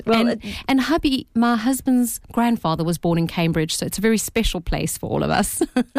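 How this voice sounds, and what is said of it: South African accent. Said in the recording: “I can tell from your accent you're not from around these parts ... Is that a South African accent? ... It's a South African accent”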